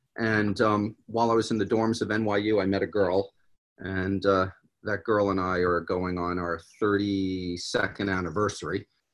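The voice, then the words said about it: New York accent. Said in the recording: “I'm from New York originally, if my accent didn't come out.”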